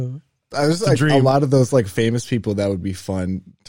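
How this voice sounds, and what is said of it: Usual voice. Nothing is said of it.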